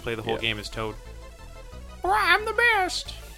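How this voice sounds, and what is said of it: Toad character voice impression. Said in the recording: “my Toad impression.”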